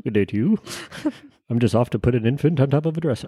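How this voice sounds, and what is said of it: Impression of old-timey people. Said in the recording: “my impression of them back in the day”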